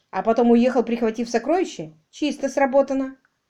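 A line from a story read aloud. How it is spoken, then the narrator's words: Exclaiming. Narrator (Russian): воскликнул Ник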